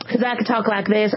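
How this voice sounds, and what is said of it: Put-on Southern accent. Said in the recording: “I wish they did a study in the South ... I love talking Southern”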